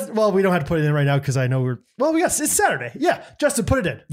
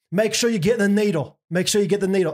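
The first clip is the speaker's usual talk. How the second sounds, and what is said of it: Put-on Australian accent, not very good. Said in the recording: “Oh, I'm so bad with my accents. ... That's not too bad. ... Australian”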